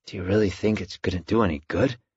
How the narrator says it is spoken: Al whispered groggily

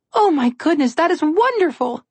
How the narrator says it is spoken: Alex said excitedly

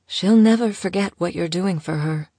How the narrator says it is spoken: she tried to console him gently

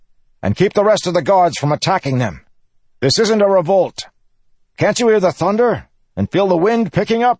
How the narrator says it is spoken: shouting orders

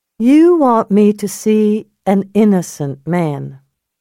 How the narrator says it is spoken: she said slowly

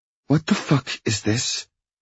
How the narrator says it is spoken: She hisses

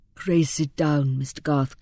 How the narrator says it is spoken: continued the banker, in his suavest tone

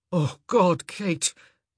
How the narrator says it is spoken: he moaned, his ability to form flowery sentences completely lost in the primitive heat of the moment

